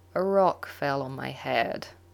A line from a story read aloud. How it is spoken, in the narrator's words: he says slowly